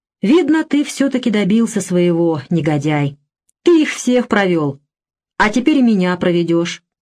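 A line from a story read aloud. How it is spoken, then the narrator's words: Declaration after deep sigh. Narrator (Russian): глубоко вздохнув, заявил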